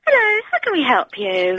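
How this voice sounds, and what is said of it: Polite customer service phone voice. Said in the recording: “I could have put my customer service voice on.”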